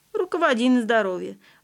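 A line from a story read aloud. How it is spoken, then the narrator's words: Laughing. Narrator (Russian): рассмеялась Мила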